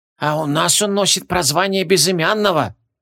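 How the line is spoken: Whispered. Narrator (Russian): прошептал эйст

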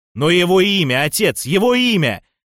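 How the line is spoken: Roaring. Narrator (Russian): Взревел Фавхард

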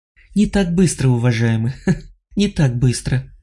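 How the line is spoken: Laughing. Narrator (Russian): рассмеялась она

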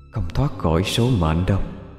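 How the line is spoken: Ominous whisper. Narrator (Vietnamese): một lời nói thì thầm bay theo gió

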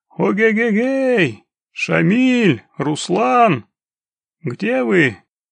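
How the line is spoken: Loud call, hand cupped. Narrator (Russian): приложив к рту ладонь, громко закричал

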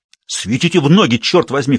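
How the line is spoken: Shouted. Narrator (Russian): крикнул Раттлидж

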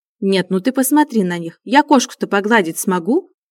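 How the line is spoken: Mock-angry. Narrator (Russian): притворно-сердито уточнила Анина мама

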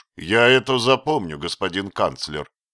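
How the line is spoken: Dry. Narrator (Russian): сухо промолвил

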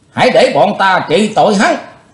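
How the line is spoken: Shout from behind. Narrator (Vietnamese): tiếng quát lên

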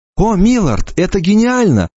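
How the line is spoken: Exclamation. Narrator (Russian): воскликнула Эмма

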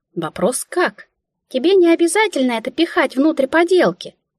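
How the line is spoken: Pitying squeak. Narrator (Russian): Сжалившись надо мной, пискнула Мика

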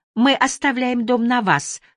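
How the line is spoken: Cheerful laughing. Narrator (Russian): весело смеется миссис Уолш

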